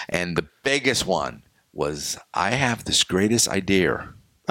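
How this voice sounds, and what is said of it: New England accent. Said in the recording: “my New England accent ... up northern”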